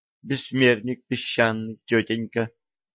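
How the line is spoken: Timid young woman. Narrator (Russian): робко сказала девушка

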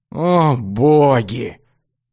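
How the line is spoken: Disappointed sigh. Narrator (Russian): разочарованно вздохнул Рыжий

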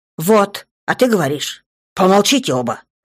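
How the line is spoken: Sudden sharp bark. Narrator (Russian): Вдруг неожиданно рявкнул

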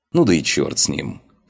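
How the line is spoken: Snort. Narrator (Russian): хмыкнул я

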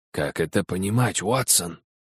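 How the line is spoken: Whispered. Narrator (Russian): прошептал Холмс

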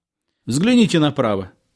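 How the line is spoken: Guide shouting. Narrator (Russian): крикнул экскурсовод

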